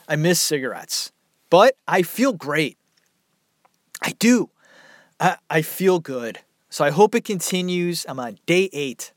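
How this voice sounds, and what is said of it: Hoarse, failing voice. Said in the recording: “My voice is going. ... Nah, my voice, it sucks.”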